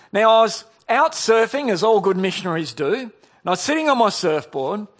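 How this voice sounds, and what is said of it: Australian accent. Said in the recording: “he noticed that I had an Australian accent”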